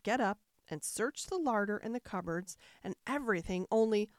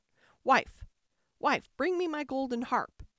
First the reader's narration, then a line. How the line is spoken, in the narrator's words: the ogre called out